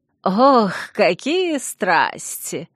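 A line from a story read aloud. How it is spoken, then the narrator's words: Mocking young woman. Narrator (Russian): насмешливо произнесла девушка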